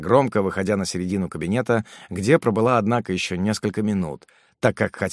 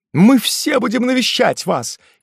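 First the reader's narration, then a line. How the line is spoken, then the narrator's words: Shouting. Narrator (Russian): кричал полковник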